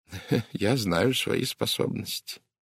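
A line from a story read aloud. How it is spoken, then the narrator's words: Quiet reply. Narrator (Russian): также тихо ответил бельгиец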